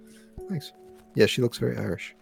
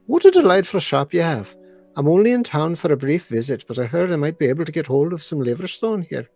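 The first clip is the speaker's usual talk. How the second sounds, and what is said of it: Put-on Irish accent. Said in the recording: “Can you do an Irish accent for her?”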